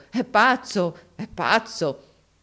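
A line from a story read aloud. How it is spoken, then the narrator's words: Crowd laughing, exclaiming. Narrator (Italian): tutti scoppiarono dalle risa, esclamando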